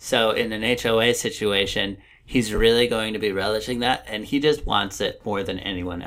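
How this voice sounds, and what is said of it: Usual voice. Nothing is said of it.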